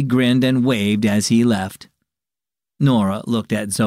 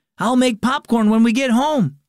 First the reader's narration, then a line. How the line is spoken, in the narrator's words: he yelled over his shoulder